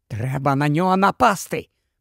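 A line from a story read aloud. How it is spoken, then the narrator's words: Whispered. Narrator (Ukrainian): прошепотів він Ронові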